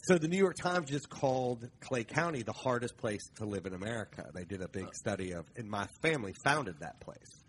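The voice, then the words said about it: Southern twang accent. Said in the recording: “there's no way that accent's from Boston ... the twang”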